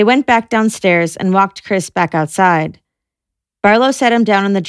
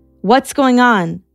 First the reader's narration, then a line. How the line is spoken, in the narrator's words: Chris yelling from the first floor